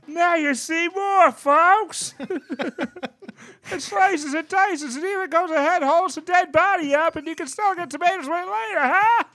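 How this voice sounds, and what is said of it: Loud shouted pitchman voice. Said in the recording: “the perfect Billy Mays impression is just the entire waveform is just gonna be one solid block”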